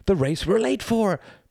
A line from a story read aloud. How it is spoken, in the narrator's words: panted Mr